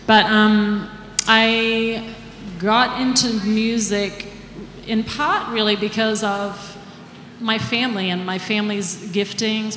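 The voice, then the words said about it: Slight mixed accent. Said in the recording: “I kept somewhat of an accent ... I have a little bit left. It's very mixed because we live in Nashville now. ... So it's very confused, my accent.”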